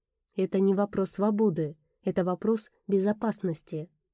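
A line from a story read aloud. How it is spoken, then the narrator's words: Calm tone. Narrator (Russian): сказал он спокойным тоном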